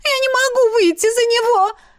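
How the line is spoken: Shrill squeal. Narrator (Russian): Взвизгнула Изи

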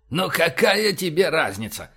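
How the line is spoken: Exasperated groan. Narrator (Russian): простонал Боровский

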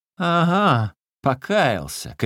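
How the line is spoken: Mocking shout. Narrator (Russian): крикнул кучер насмешливо

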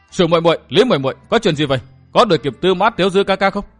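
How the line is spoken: Loud impatient shout. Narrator (Vietnamese): Dương Tử Diệm không nhìn được, lớn tiếng la

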